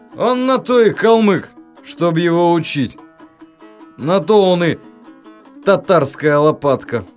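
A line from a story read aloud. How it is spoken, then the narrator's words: Cheerful drunken musing aloud. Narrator (Russian): опьяневшим туловищем, весело вслух думал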